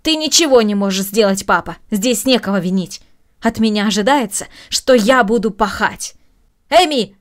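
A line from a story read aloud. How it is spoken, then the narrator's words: Raised voice, shouting. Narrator (Russian): повысив голос, крикнула Маша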